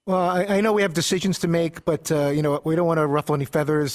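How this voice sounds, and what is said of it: Impression of Matt LaFleur. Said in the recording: “your impression of Matt LaFleur's press conference”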